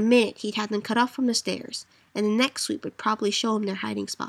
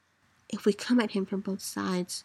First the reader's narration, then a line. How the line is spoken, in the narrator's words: Moore whispered, so close